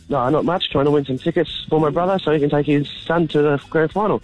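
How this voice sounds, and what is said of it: Congested, sick-sounding voice. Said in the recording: “Is it a Kiwi accent? ... I'm just a bit sick at the moment. ... you got sore throat, blocked nose? ... Yeah, that's correct.”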